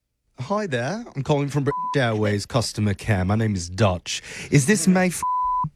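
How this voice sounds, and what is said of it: Bad put-on British accent. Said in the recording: “my absolute worst British accent”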